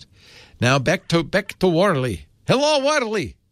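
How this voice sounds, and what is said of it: Put-on Russian accent. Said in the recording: “doing his Russian accent.”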